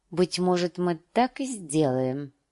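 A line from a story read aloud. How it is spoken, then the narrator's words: Muttering. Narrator (Russian): пробормотала она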